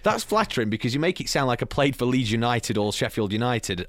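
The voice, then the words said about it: Strong polished radio-presenter voice. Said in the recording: “lose the radio voice ... Why does the voice come in so strong?”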